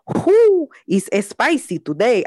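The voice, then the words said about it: Put-on Latina accent. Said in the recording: “I really like doing that accent right now ... The Latina president accent”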